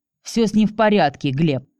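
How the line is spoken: Growled into phone. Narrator (Russian): рыкнула девушка в трубку

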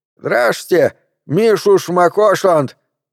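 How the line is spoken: Joyful shout. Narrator (Russian): крикнул он и радостно улыбнулся

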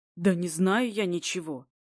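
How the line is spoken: Irritated driver. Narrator (Russian): раздраженно водитель

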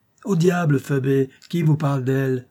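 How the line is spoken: Exclaiming. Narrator (French): s'écria Marx

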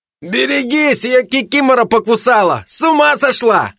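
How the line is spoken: Shout from ahead. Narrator (Russian): крикнул кто-то впереди

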